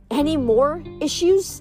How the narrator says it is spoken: Kelly snapped at her sisters

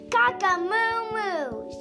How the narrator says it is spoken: shouted Rooster

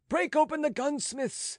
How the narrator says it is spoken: shouted a voice in the turbulence

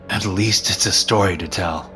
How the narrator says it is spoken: I chuckled weakly

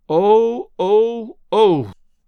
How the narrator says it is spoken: Nan moaned

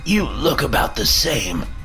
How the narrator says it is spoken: my grandfather spat

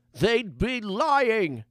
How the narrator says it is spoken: yelled the scruffy old mage

